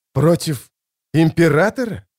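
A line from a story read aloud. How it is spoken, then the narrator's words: Breathed out, male. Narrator (Russian): выдохнул он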